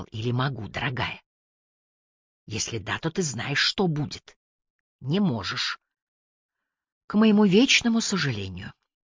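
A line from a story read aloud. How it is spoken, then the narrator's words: Quiet whisper. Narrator (Russian): тихо прошептал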